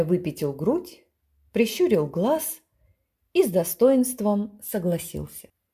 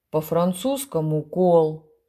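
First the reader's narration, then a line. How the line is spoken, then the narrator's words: Deep bass voice. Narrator (Russian): сказала Болтус басом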